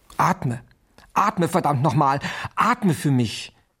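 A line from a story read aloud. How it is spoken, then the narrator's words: Screamed. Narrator (German): schrie Dr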